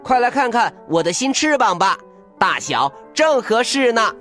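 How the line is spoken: Excited shout. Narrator (Chinese): 达芬奇…兴奋地喊着

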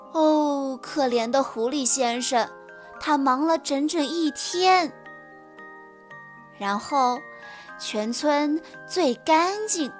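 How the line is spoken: Sighing. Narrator (Chinese): 小猪叹了口气说

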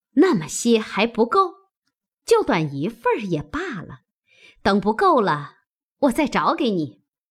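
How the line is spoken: Laughing. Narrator (Chinese): 凤姐笑道

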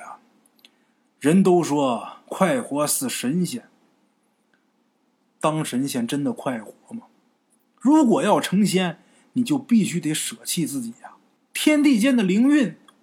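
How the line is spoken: Sighing. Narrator (Chinese): 许道人叹了口气，又说

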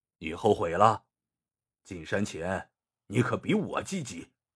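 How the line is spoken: Cold. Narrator (Chinese): 王大山冷冷的说

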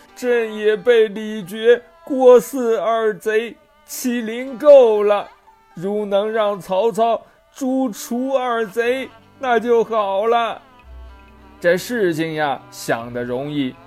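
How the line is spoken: Crying. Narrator (Chinese): 这献帝哭着说

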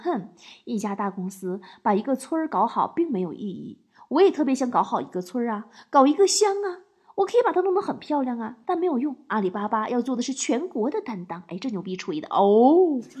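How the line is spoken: Sarcastic. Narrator (Chinese): 马云就讽刺说

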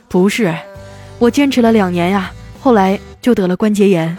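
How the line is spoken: Sighing. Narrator (Chinese): 叹了一口气说

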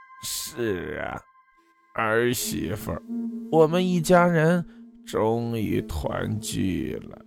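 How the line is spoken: Hoarse slow woman's voice. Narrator (Chinese): 一个沙哑缓慢的女人音调从自己体内传来

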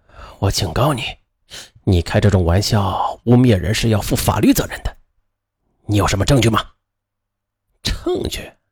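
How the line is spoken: Sinister laugh. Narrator (Chinese): 那人则阴笑起来

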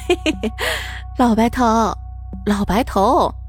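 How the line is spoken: Muffled laughter. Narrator (Chinese): 陈寡妇捂着嘴巴笑了

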